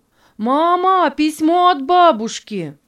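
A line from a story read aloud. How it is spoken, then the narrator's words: Joyful shout. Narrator (Russian): Дэнни радостно крикнул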